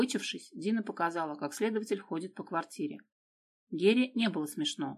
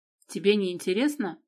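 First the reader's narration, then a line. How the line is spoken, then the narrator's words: Offended voice, asking. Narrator (Russian): обиженным голосом спросила Дина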